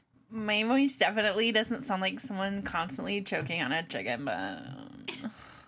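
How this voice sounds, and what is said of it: Exaggerated vocal fry. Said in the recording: “How much vocal fry can we get into this episode?”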